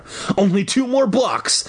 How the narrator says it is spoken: I called breathlessly

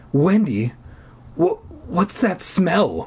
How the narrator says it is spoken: He stammered

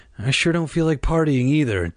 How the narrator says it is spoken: Dad said with a sigh

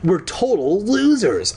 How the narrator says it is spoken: I moaned

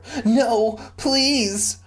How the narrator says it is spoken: Roxanne begged

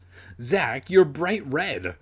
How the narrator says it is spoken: her sister laughed

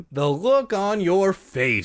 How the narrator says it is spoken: she exclaimed when she finally stopped laughing

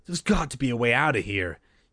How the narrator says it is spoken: she answered breathlessly to the thief

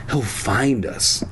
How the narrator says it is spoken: I whispered back

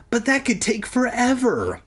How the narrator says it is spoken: I cried

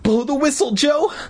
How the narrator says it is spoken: Mindy cried

